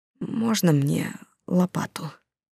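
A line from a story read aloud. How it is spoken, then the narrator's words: Hesitant, barely audible. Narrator (Russian): Он замялся, а потом еле слышно произнес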